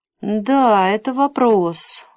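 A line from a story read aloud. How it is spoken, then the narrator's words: Sigh. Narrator (Russian): вздохнул Непомук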